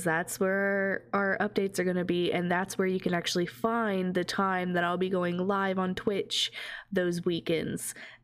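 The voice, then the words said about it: Congested voice from a cold. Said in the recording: “I have a cold right now, so if I sniffle”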